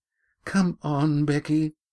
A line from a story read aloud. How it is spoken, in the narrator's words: pleaded